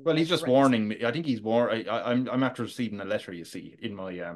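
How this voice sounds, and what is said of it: Tony Stark with Irish accent. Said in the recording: “my best Tony Stark impression ... Robert Downey Jr. has insisted on doing an Irish accent from Tipperary”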